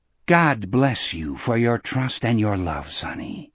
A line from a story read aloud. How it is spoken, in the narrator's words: Gardner said gravely